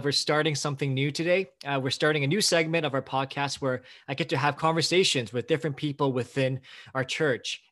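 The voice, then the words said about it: Excited, upbeat tone. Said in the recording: “I'm really excited. I hope you can tell by my tone of voice.”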